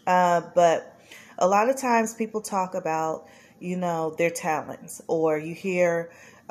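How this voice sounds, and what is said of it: Congested, nasal voice. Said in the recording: “My nose is congested. I don't know if I sound a little nasally.”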